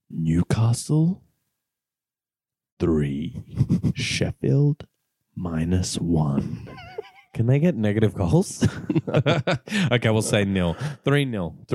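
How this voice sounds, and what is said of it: Dark Knight Batman-style voice. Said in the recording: “your old prediction voice ... It's like full Christopher Nolan, Dark Knight.”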